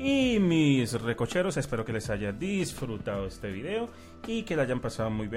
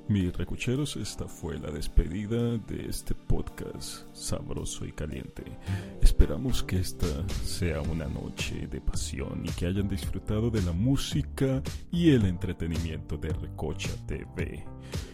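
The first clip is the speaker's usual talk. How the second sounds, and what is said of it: Sultry female radio announcer voice. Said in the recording (Spanish): “voz de locutor de, radio ... Yo voy a intentar hacer una voz de locutora sexy.”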